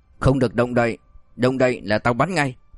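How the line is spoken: Cold voice. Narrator (Vietnamese): truyền đến một giọng nói lạnh lùng

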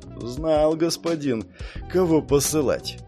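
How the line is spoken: Sighing. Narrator (Russian): вздохнул Маран

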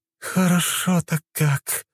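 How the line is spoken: Moaned. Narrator (Russian): простонала Альфа

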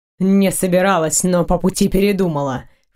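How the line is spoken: Snorting. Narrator (Russian): фыркнул Дайрен

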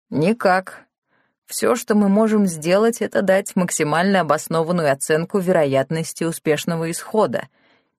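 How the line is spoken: Plain. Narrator (Russian): ответил профессор

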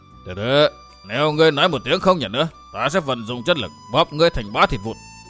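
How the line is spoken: Loud angry snap. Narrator (Vietnamese): Vũ Si gắt to

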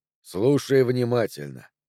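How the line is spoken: Even, level voice. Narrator (Russian): ровным голосом сказал Джо

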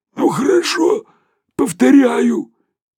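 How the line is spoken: Hoarse astonished reply. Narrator (Russian): сиплым голосом ответил совершенно пораженный Шариков

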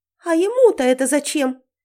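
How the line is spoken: Surprised shriek. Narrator (Russian): Удивленно взвизгнула Велена

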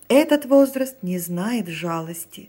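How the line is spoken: Plain. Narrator (Russian): сказал уже Лафонтен

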